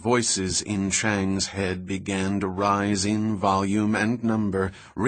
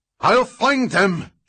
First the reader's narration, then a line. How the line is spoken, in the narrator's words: Chang shouted